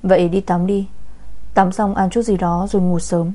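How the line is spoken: Gentle soft voice. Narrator (Vietnamese): người đàn ông thoáng dịu dàng, nhẹ giọng nói

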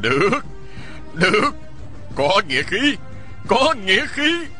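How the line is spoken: Laughing loudly. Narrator (Vietnamese): Vị nghĩa huynh nọ cười lớn nói

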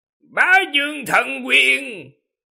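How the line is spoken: Loud shout. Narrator (Vietnamese): Nó hét lớn

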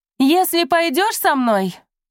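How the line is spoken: Shouted, female voice. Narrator (Russian): крикнула гадюка, женщина, судя по голосу

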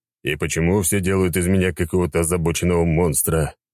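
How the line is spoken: Sighing. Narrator (Russian): я вздыхал

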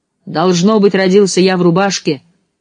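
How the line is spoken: Exclamation. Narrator (Russian): воскликнул

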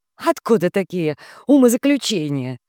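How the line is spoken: Nervous giggle, teacher. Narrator (Russian): нервно хихикнула учительница

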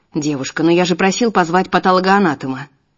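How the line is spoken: Irritated remark. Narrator (Russian): Некоторые раздраженно бросают

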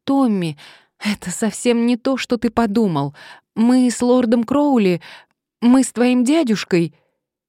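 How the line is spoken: Exclaiming. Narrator (Russian): она воскликнула

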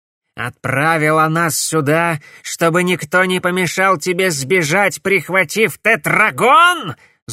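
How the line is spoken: Angry shout. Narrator (Russian): злобно крикнул Корнелиус

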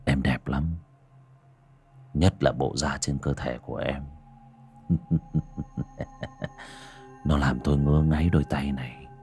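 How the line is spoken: Leering whisper in ear. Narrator (Vietnamese): Hắn, miệng nhợn nở một nụ cười đều cáng, ghé vào tai cô mà thì thầm

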